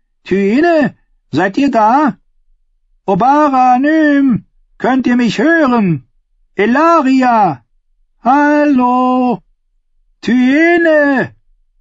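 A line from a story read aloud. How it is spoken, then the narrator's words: Princess calling until hoarse. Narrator (German): Die Prinzessin rief, bis sie heiser war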